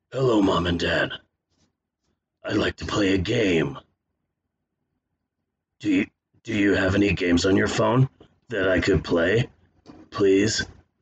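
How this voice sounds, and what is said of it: Horror villain voice as a child. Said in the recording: “my impression of Jigsaw if he was an 8-year-old child”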